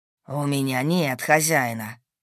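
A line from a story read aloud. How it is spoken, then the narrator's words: Growling wolf. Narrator (Russian): зарычал волк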